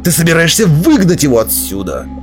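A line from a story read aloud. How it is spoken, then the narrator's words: Reproachful growl. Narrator (Russian): осуждающе прорычал Белвар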